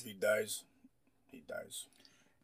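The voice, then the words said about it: Russian accent impression of Drago. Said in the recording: “You have a great Russian Drago accent.”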